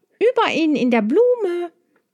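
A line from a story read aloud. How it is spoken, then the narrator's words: Calling out. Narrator (German): rief Maya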